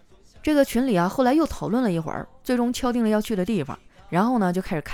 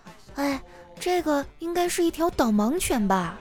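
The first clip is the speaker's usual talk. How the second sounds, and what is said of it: Quiet, hushed child-like aside. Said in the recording (Chinese): “小声的跟旁边的小伙伴说”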